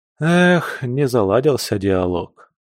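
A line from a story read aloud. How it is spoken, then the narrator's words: Sad sigh. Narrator (Russian): печально вздохнул пастырь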